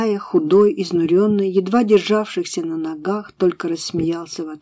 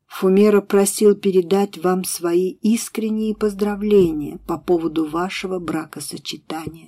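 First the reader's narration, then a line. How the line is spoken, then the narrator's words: Plain. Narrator (Russian): сказал он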